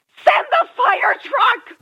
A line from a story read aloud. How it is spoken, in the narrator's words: a female voice shouted frantically